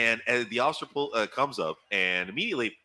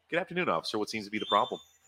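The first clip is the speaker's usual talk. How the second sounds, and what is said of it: Polished announcer-style podcast voice. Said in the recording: “my attorney DJ mode. Voice. I'm doing the podcast voice.”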